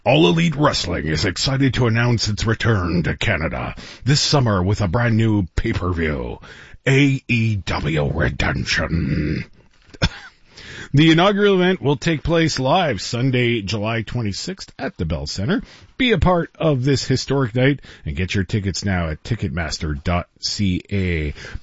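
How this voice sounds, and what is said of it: Wrestling announcer voice. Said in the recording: “in my best wrestling announcer voice”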